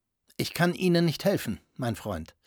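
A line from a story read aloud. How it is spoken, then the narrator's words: Calm. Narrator (German): wandte er sich ruhig an Herrn Grünlich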